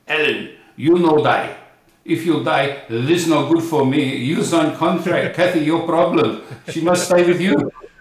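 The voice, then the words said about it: Imitates thick European accent. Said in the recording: “he's still got that thick, European accent”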